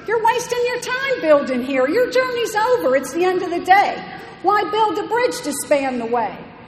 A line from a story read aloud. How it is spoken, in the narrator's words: cried a cynical voice from near